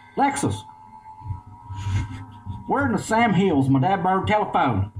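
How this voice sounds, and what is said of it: Exaggerated Eastern Kentucky accent. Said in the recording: “Because you were Kentucky accent... The Eastern Kentucky edition”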